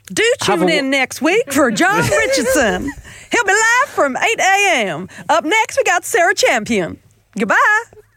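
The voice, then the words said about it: Put-on Texan accent. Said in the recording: “wrapping up this week's show in a Texan accent”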